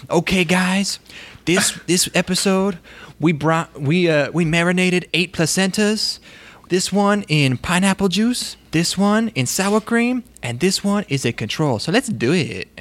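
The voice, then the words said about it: Imitates a bizarre, unplaceable accent. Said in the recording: “he has this bizarre accent that I can't place”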